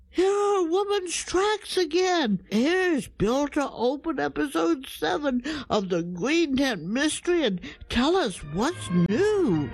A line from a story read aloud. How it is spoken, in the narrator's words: Dragonfly cried out